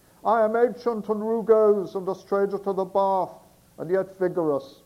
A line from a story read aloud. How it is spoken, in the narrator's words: yelled Will, the well-hung matelot